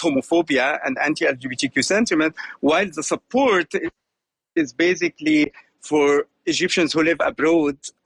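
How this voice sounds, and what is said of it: Slight German twang in English. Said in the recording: “hear a slight German twang in your accent”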